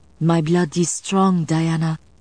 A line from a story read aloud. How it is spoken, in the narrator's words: Isabeau promised